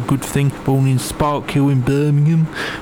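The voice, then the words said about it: Poor put-on Birmingham accent. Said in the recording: “that terrible impression of your accent ... all the people living in Birmingham”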